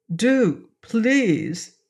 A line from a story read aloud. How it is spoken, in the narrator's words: begged Pawn